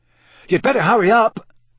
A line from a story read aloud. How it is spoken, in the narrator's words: Ron called loudly after her